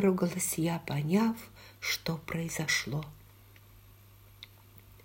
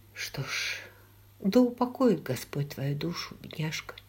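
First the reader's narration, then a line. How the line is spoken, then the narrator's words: Quiet. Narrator (Russian): тихо сказала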